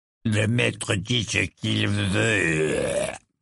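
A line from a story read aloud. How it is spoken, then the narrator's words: Furious grumbling. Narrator (French): grommela-t-il avec fureur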